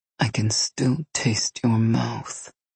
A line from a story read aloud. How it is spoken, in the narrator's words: he purred